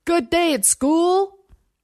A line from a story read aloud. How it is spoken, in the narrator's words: Over the rising whine of the engine and the vip, vip, vip of chopped air, he shouted